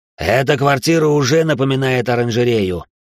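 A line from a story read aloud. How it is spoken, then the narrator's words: Growling. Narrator (Russian): рычал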